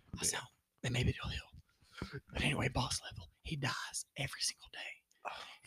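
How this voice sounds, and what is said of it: Strained, whispery damaged voice. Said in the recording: “This is as normal as it gets. And then it strains and it starts hurting. ... That's my whispering.”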